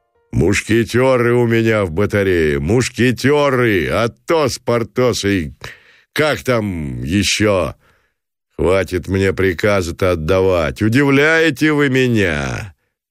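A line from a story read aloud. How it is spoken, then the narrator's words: Friendly guffaw. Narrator (Russian): захохотал Гранатуров против ожидания дружелюбно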